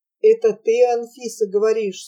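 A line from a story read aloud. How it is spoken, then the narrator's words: Sleepy voice through blizzard. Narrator (Russian): сонным голосом кто-то спросил сквозь вьюгу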